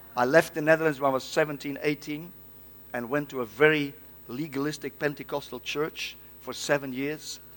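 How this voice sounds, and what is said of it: Dutch-accented English. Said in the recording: “I'm a Dutchman. I have a Dutch accent. I'm not Russian.”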